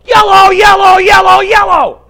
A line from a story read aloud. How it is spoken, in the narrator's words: A man in the back began to bellow